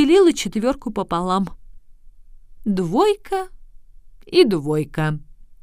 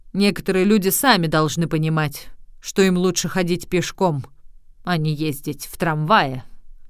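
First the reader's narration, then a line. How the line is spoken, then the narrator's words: Tram driver grumbling back. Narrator (Russian): Вагоновожатый проворчал в ответ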